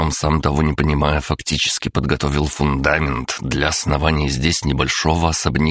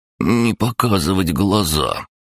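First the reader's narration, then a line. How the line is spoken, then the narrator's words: Guilty, offended mumble. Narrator (Russian): виновато понурился крабогном и обиженно пробурчал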